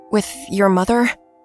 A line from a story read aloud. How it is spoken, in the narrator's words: blurted out